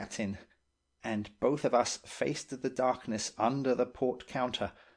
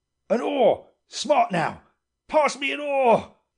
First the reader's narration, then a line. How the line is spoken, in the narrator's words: shouted the captain